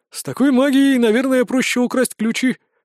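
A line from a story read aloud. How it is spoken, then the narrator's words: Snort. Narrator (Russian): хмыкнул Виктор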